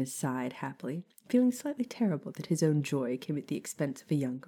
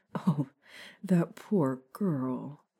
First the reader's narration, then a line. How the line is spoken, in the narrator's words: Remus chuckled softly